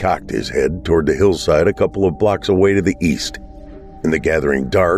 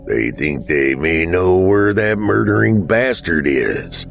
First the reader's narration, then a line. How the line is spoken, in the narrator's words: Dad growled